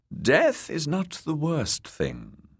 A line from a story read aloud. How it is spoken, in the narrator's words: the kindly man replied